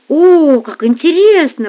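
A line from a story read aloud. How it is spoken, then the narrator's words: Exclaimed. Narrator (Russian): воскликнул он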